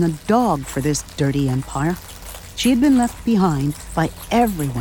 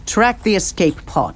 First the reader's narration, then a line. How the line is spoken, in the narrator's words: she snapped